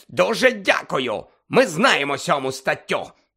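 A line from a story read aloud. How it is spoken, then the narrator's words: Hiss. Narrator (Ukrainian): прошипів Фадж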